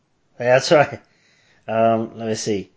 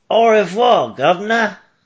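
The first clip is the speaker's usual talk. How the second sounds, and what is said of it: Fake rough British accent. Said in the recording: “fake British accent ... French and, like, dirty British”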